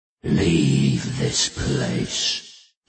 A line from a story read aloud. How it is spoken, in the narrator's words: he said, in words that Bod heard in his head, words that were also a guttural growl